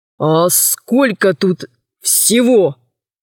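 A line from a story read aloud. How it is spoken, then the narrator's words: Hoarse, fearful, agitated question. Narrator (Russian): Хриплым от страха и волнения голосом спросил глава города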